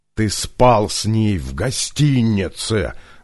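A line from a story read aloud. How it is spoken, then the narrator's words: Menacing shout. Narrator (Russian): грозно кричал Младен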